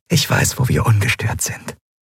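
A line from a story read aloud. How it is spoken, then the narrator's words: Softly. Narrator (German): sagte sie leise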